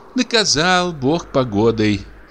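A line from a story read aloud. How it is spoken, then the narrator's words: Sigh. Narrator (Russian): вздохнула дичиха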